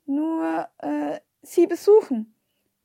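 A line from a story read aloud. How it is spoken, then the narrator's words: Stammering. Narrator (German): stammelte ich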